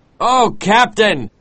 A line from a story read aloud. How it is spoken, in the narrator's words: cried Starbuck